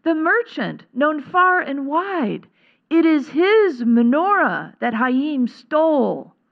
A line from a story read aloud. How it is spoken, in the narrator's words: cried the scribe